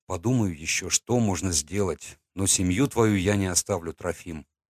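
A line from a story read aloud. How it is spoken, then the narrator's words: Whisper. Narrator (Russian): прошептал я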